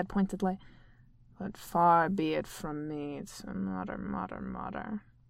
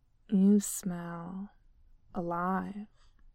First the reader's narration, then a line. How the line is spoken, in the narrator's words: he said, his voice low and hypnotic, and there was a depth of hunger in his voice that Polly had never heard before